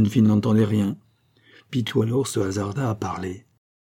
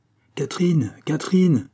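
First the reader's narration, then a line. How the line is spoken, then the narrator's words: Shouting. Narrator (French): cria Mme Billot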